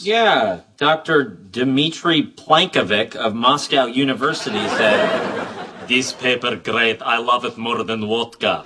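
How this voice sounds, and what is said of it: Put-on Russian-style accent. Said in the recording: “better with the accent”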